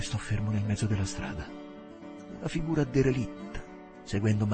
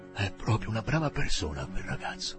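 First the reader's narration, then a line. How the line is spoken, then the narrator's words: Murmured. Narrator (Italian): mormorò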